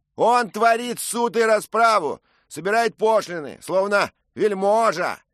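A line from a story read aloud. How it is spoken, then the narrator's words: Shout. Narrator (Russian): крикнул один из часовых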